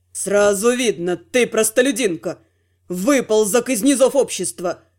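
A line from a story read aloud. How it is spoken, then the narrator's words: Scornful snort. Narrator (Russian): Я фыркнула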